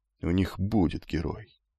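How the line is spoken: Muttering. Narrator (Russian): бормотал амфитрион

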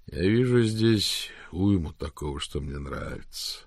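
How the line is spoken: Sigh. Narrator (Russian): вздохнул Рик

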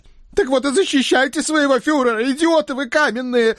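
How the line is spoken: Pained howl. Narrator (Russian): взвыл Центурион, словивший отлетевший доской меж ушей

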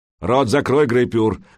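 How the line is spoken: Loud barking shout. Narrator (Russian): гаркнул Кительфаст

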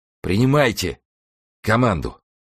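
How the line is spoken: Strained, groaning in pain. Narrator (Russian): еле выговорил он между стонами и проклятиями

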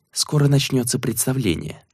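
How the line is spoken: Quiet reply. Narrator (Russian): также тихо ответила она

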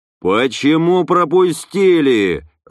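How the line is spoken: Yelling. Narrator (Russian): заорал Вадим Эдуардович

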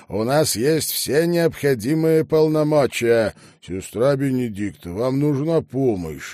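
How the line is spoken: Loud question. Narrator (Russian): громко спросил мистер Топхаус

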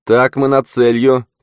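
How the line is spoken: Shouted. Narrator (Russian): крикнула Глейс

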